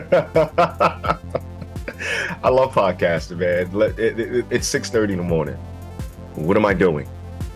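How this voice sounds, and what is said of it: Croaky, hoarse morning voice. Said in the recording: “I sound like a frog.”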